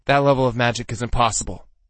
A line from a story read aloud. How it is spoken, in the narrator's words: he snapped